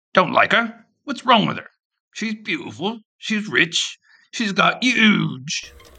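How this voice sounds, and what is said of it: Poor attempt at British accent. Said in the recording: “I hope the UK listeners will forgive my horrible attempt at the accent.”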